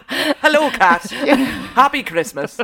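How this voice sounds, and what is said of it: Bad Terry Wogan Irish accent. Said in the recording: “That's an awful accent. Don't ever attempt it again. ... Oh, poor Terry. Poor Ireland. I apologise, Ireland.”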